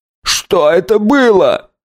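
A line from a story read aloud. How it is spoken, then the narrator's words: Shrill squeal. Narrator (Russian): взвизгнул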